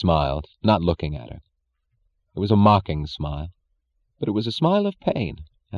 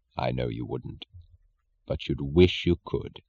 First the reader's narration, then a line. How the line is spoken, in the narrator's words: He said gently